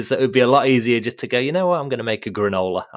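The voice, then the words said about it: British accent. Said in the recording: “I grew up in the UK, as you can probably hear from the accent”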